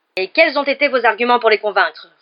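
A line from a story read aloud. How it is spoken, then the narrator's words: Roared. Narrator (French): rugit-il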